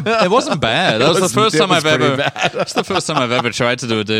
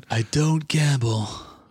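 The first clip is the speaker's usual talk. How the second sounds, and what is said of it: Impression sounding like Marlon Brando. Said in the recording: “is that your David impression? ... Why does he sound like Penn? ... Marlon Brando”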